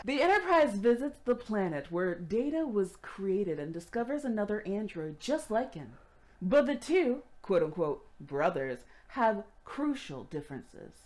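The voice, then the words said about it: Announcer-style radio voice. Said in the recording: “I get to practice my radio voice”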